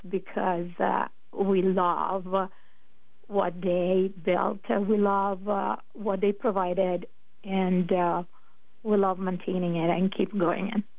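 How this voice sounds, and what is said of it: Slight Italian accent. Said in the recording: “a little bit of an accent ... where is that accent from ... originally I'm from Italy, was born and raised in the north of Italy”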